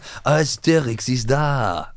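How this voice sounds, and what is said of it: Sung with put-on French accent. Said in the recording (German): “Mit französischem Akzent? ... Ja, ja, ja.”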